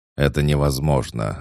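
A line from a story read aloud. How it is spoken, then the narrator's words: Barked, calmed, brute. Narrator (Russian): рявкнул амбал, успокоившись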